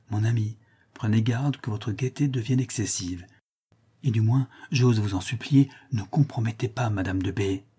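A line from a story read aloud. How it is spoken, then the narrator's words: Whispered. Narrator (French): lui dis tout bas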